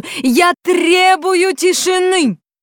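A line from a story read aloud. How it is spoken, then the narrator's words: Agitated, shouting at full strength. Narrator (Russian): милиционер почему-то особенно разволновался и закричал изо всех сил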